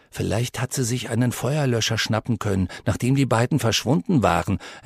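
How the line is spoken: Quiet reply. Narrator (German): entgegnete Connor ebenso leise

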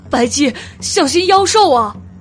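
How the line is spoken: Earth-shaking roar. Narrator (Chinese): 他口中发出一声震天裂云的巨吼

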